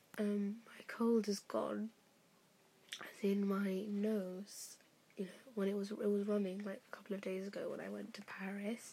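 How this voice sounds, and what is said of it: Weird, odd-sounding voice. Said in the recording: “my voice is very, just sounds weird. In the morning, I could barely talk ... how odd I sound now”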